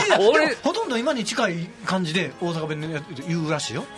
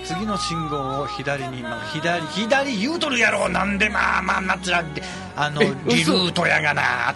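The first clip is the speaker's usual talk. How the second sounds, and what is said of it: Osaka-dialect car navigation voice. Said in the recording (Japanese): “関西弁で案内するカーナビとか ... ちょっと作ったけど ... 作ったね”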